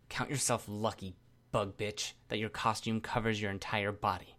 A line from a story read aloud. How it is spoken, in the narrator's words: Panacea murmured to me